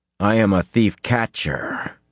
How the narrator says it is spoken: the man growled

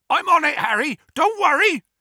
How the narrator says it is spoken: Hagrid yelled

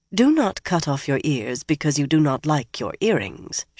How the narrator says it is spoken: she muttered

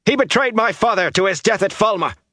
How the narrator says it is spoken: Bornhold shouted

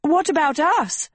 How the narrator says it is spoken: screamed Agatha

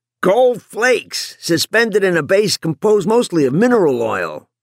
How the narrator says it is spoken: the pilot yelled back

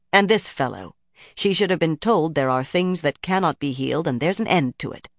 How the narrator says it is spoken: Romanda said firmly

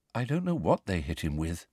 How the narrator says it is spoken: said Luna sadly

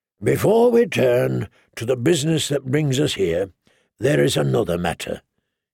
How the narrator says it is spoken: he said solemnly

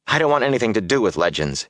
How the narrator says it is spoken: he said sharply

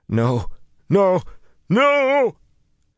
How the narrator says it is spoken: He shrieked then, the sound dwindling away without losing intensity, as though the screamer had been yanked into unimaginably far distance

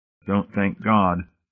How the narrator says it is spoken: Hamilton reminded him dryly

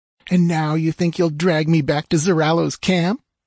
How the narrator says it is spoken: sneered

